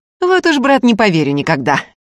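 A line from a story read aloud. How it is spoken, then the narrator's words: Booming guffaw. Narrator (Russian): расхохотался Семирский так, что с забора сорвалась ошалевшая ворона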